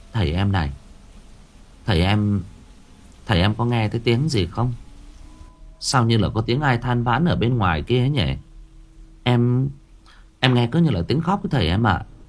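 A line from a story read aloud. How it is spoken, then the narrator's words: Stammering. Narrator (Vietnamese): Bà lắp bắp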